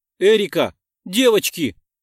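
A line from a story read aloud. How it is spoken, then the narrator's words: Shouting after someone. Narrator (Russian): крикнул я им вслед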